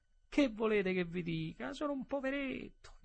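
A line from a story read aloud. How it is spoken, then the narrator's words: Whimpering. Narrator (Italian): Piagnucolò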